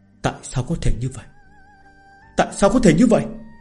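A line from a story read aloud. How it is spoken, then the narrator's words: Stunned muttering to himself. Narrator (Vietnamese): Võ Thiên Nam, trợn mắt hốc mồm, tự lẩm bẩm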